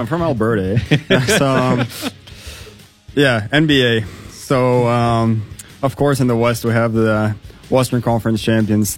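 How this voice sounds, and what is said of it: Broad Canadian accent. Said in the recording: “with this broad Canadian accent, eh? ... Yeah, with broad Canadian accent.”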